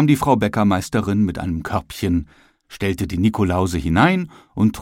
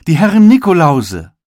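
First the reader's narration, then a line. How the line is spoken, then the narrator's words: Calling out. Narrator (German): rief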